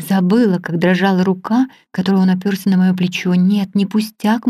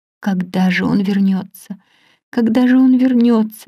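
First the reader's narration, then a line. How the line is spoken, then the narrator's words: Silent exclamation. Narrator (Russian): беззвучно восклицала я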